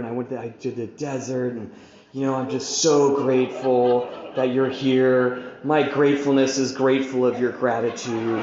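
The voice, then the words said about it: Breathy, calm, monotone voice. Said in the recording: “I'm talking in this really monotone, calm way because now I'm calm and I'm spiritual ... really breathy and monotone.”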